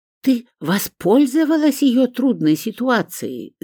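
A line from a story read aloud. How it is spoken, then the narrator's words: Hissing. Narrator (Russian): зашипела Элеонора Рудольфовна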